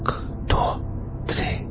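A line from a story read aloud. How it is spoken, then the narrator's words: Whispered. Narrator (Russian): прошептал он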